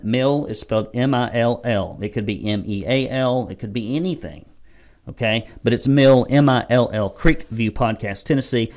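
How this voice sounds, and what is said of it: Redneck accent. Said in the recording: “I have a redneck accent.”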